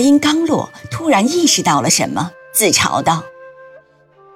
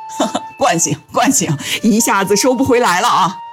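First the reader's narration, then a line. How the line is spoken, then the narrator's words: Laughing. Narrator (Chinese): 两人哈哈一笑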